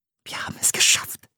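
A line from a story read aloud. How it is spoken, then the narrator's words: Whisper. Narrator (German): flüsterte sie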